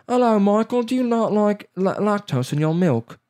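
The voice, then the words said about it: Put-on British accent. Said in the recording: “of course, it's a British guy ... I'm making most of the accents up”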